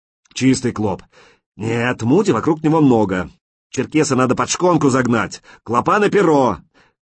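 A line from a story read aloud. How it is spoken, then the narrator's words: Many voices shouting. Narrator (Russian): Каждый кричал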